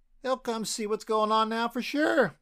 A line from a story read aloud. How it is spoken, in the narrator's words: Leo yelled